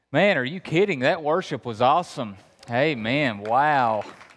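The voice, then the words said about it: Kentucky Appalachian accent. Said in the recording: “I'm really from Kentucky. You hear the accent? ... I'm from Appalachia”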